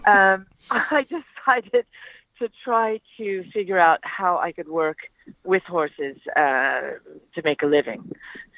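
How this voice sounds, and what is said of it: Noticeable accent. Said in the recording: “where does your accent come from? ... Well, I'm like Madonna.”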